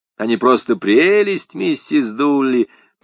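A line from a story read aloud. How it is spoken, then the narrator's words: Cooing. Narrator (Russian): проворковал я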